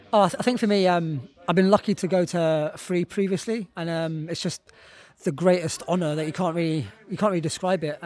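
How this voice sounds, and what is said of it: Slightly hoarse, partly lost voice. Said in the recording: “You're a bit hoarse from last night... my voice is a bit... I think I've lost my voice a little bit after the screaming of last night.”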